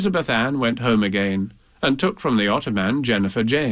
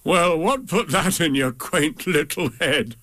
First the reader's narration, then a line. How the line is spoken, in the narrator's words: the Lord High Coachman laughed and said